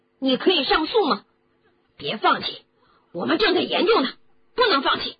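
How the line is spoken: Angry. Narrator (Chinese): 罗恩大怒着

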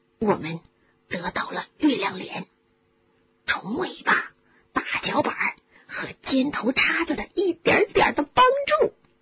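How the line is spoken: Whisper. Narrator (Chinese): 弗雷德在哈利的耳边低声地说

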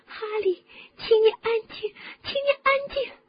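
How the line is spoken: Sobbing. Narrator (Chinese): 霍敏抽泣着

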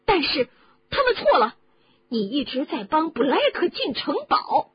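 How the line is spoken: Shouting. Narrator (Chinese): 哈利大叫起来

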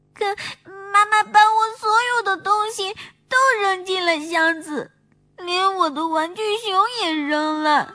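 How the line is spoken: Crying. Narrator (Chinese): 小熊妹妹哭着说

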